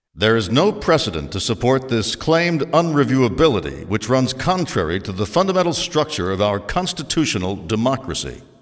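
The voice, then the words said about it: Formal courtroom reading voice. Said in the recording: “I'm going to read this in my courtroom voice.”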